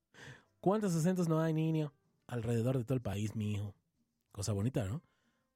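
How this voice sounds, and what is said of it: Strained, hoarse-sounding throat. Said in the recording (Spanish): “todavía no me compongo bien de la garganta”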